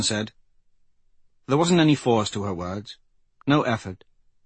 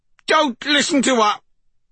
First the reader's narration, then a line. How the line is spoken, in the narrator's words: Mwandule ordered in a shrill voice from where he lay on his back